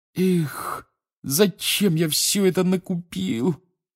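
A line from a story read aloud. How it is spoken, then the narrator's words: Groaning. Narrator (Russian): простонал Рон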